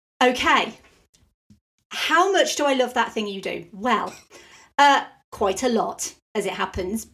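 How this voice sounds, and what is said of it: Non-American accent. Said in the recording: “Obviously, I'm not American. I don't know if anyone's figured by the accent. Not American.”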